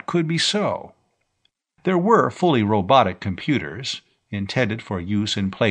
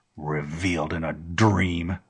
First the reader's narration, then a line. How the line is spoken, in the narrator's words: the old rebel snorted